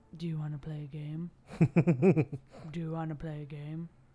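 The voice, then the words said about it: Imitates a horror movie villain's voice. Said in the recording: “my best Jigsaw impression. It's not that good.”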